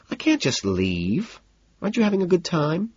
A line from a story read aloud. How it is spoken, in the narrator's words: sighs